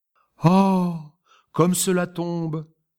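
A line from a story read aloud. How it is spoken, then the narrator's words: Woman exclaiming. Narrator (French): s'écria la lorette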